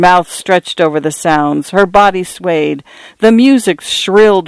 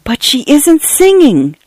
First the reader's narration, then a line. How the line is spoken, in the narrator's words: Cynthia whispered in shock and horror